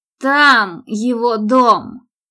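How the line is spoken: Booming. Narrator (Russian): прогремел Патрик

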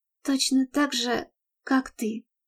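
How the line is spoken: Quiet, admiring voice. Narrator (Russian): тихо сказала она, не пытаясь скрыть восхищение, которое испытывала к нему

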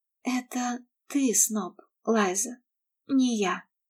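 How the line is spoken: Quiet hopeless objection. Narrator (Russian): возразила Мередит тихо и безнадежно

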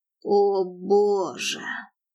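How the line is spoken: Groaning. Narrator (Russian): простонал он

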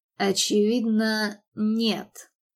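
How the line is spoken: Contemptuous, through clenched teeth. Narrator (Russian): процедил он таким тоном, что Мередит со стыдом почувствовала себя последней трусихой

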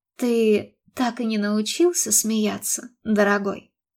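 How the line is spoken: Soft, faltering question. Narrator (Russian): Кэролайн мягко, прерывающимся голосом, спросила

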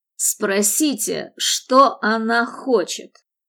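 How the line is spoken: Barking. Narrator (Russian): рявкнул Мэтт

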